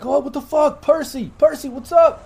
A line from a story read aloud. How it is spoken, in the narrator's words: the guy behind the escalator just yell out